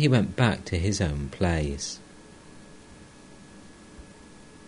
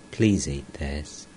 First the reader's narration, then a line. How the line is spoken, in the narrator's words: Tenderly, said